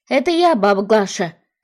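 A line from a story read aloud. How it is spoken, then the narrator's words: Shouted. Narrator (Russian): крикнула Арина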